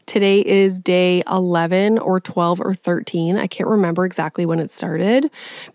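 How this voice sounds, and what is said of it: Congested, unwell-sounding voice. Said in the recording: “I probably still don't sound well because I am still suffering with a sinus infection”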